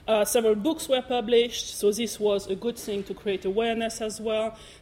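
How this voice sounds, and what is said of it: German-French accented English. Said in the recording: “you might have heard with my accent, I'm not from around here, so I'm half German, half French”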